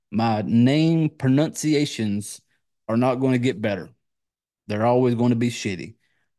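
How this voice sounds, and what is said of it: American country accent. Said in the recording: “I got this country accent that I can't fucking, it's not going away”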